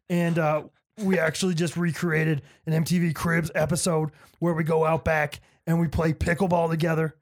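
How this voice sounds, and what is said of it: Gravelly voice imitating another person. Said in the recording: “That was actually a really good impression... I felt like it was pretty consistent... The right amount of gravel.”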